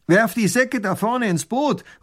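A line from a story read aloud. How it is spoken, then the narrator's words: Calling out. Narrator (German): ruft der Räuber tunichtgut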